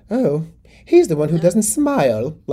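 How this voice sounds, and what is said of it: Attempted Queen Elizabeth II impression. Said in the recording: “like my accent there, Rob, I tried.”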